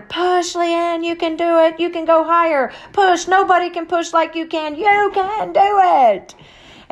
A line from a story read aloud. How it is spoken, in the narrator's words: starts hollering